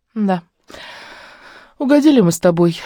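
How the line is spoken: Sigh. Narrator (Russian): вздохнула Лариса

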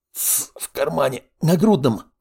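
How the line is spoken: Young man, through teeth. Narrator (Russian): процедил парень

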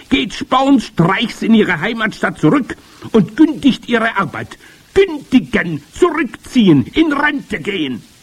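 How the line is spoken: Witch thundering. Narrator (German): donnerte die Hoch- und Großmeisterhexe

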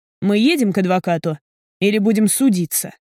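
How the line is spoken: Cold question. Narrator (Russian): холодно спрашиваю я

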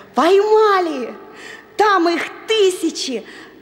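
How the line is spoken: Joyful reply. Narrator (Russian): радостно отозвался Тильтиль

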